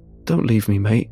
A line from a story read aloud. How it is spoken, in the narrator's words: the man pleads in a hoarse voice